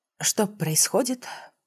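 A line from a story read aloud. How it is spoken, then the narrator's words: Quiet resigned question. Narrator (Russian): Тихо, с толикой обреченности, спросила я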